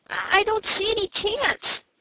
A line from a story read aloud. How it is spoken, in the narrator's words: said Frank, looking anxiously